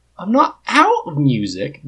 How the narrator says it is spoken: Biddy says indignantly

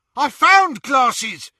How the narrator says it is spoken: yelped one of the snatchers

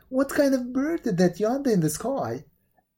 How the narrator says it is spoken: exclaimed

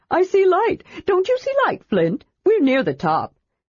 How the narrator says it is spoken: feeling Flint's arm tighten around his neck in a choking manner, Tass added hurriedly

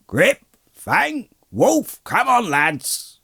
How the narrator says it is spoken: a loud voice was heard shouting

